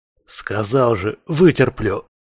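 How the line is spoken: Irritated hiss. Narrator (Russian): раздраженно прошипел я в его сторону

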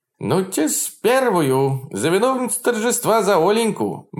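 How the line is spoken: Cheerful shout, old man. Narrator (Russian): бодро крикнул маленький веселый старичок

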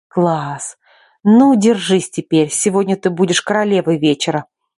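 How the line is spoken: Pleased exclamation. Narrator (Russian): Довольно воскликнула Лика

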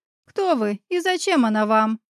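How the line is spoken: Rude woman's retort. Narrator (Russian): грубо отозвалась женщина

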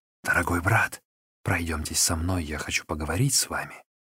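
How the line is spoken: Whisper. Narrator (Russian): шепнул

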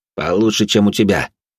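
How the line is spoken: Snapping retort. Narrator (Russian): огрызнулся он

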